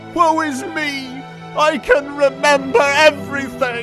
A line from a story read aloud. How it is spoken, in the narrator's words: Axel sobbed